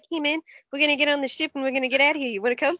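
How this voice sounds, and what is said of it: Put-on New Zealand accent. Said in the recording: “does like the New Zealander accent for the character”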